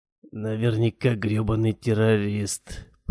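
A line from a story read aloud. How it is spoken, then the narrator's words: Mutter. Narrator (Russian): пробормотал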